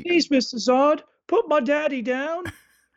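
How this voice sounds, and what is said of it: Put-on British accent. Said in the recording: “I'm speaking with a British accent”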